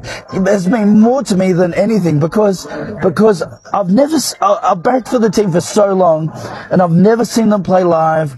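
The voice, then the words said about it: Emotional, near-tearful voice. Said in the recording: “He's like in tears. ... I'm getting emotional.”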